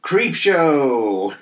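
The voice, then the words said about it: Cackling Crypt Keeper voice. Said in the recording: “my Crypt Keeper impression, the cackle”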